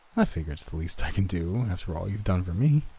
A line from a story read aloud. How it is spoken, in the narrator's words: he replied with a chuckle that sounded like a bizarre combination of his previously high-pitched laugh and my own